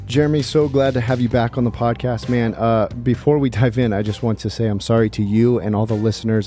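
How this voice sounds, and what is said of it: Sick, rough-sounding voice. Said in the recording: “I know I sound terrible. I've got some kind of sickness ... I sound worse than I feel.”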